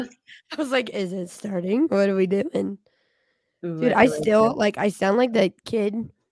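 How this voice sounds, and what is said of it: Nasal, congested sick voice. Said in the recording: “Now I sound like a nasally kid ... you sound like shit”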